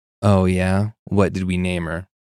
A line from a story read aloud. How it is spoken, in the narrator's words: He laughed sarcastically and said